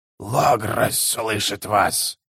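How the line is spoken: Hoarse wheeze. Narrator (Russian): прохрипел Моноко Хэм

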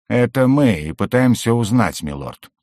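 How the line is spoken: Wry snort. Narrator (Russian): хмыкнул Угорь

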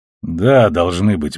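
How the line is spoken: Gruff mutter. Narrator (Russian): буркнул он

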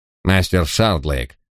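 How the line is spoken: Curt, clipped. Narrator (Russian): отрывисто проговорил он

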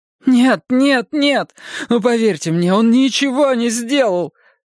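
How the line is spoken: On the verge of tears. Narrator (Russian): Хелена Эриксон была готова разрыдаться

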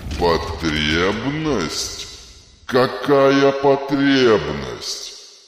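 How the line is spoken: Roaring over loud noise. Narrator (Russian): проревел он, перекрывая грохот обрушивающейся стены

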